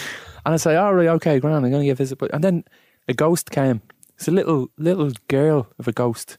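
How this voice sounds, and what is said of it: Usual voice. Nothing is said of it.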